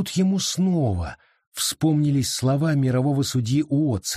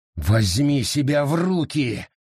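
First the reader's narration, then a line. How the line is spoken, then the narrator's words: Growled. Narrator (Russian): прорычал он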